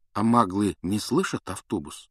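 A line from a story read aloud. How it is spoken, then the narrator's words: Plain. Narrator (Russian): спросил Гарри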